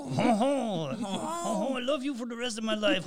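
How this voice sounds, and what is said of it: Exaggerated mock French accent. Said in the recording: “I'm sure that's his exact accent. ... Is that like stereotyping French? Is that French? ... I reminds me of like Pepe Le Pew.”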